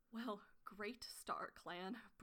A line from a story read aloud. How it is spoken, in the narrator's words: Brambleclaw murmured